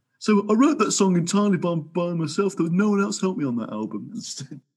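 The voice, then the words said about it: Nasal impression of another person. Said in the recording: “your Paul impression, it's always accompanied with the nose”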